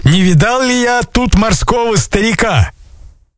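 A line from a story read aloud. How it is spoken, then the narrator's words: Shouting. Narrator (Russian): купцы закричали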